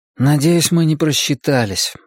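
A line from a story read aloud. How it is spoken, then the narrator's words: Young man sighing. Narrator (Russian): вздохнул парень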